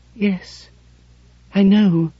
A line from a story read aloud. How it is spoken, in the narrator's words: she said, in a small, shuddering voice